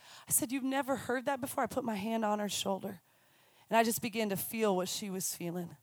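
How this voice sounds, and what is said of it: Usual voice. Nothing is said of it.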